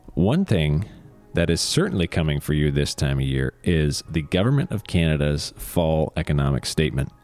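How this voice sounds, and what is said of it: Slightly crackly voice. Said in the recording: “My voice is a bit crackly right now. I think the weather's turning colder.”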